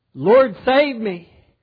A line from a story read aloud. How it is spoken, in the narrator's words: Peter cried out